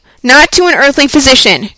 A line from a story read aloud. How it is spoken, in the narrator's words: cried Mr